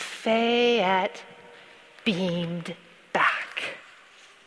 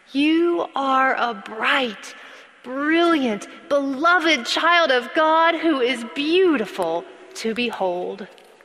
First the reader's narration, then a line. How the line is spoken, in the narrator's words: the whole congregation shouted back